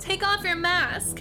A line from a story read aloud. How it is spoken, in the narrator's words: Samantha shouted